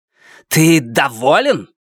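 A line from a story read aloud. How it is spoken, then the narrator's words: Harsh bark. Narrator (Russian): рявкнула Нефрита на Луна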